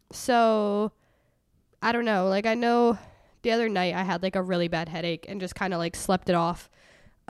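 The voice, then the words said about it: Congested, stuffy voice. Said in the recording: “I'm literally only like congested, which is why my voice sounds crazy”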